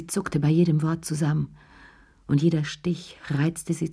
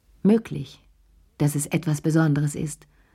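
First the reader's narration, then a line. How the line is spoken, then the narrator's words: Firm voice. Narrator (German): sagte mit fester Stimme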